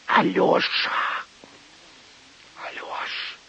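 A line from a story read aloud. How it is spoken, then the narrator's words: Hissing whisper. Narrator (Russian): Услышал он шипящий шепот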